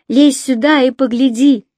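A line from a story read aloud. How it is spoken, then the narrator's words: Shout. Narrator (Russian): крикнула ему Ронни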